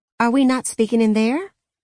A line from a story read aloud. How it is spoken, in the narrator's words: she asked, her tone wary